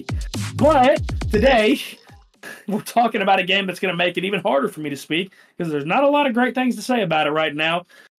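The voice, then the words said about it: Sick, rough-sounding voice. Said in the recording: “my voice sounds horrible ... I am under the weather”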